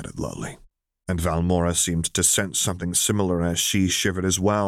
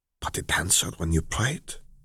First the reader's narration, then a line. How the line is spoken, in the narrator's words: she countered quietly